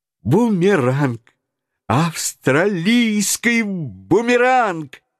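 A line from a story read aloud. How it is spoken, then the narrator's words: Exclaimed. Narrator (Russian): воскликнул Паганель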